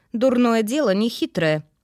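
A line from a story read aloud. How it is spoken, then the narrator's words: Snide remark, witcher. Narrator (Russian): ехидно отметил ведьмак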